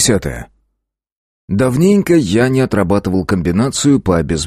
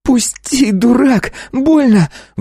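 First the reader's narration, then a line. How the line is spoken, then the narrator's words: Woman shrieking. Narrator (Russian): взвизгнула женщина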